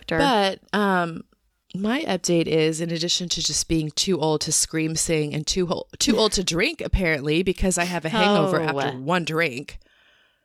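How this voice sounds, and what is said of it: Hoarse voice. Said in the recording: “I think you sound really sexy right now... right now I'm hoarse... my weird voice iterations”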